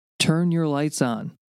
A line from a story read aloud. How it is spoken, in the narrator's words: yelled, irritated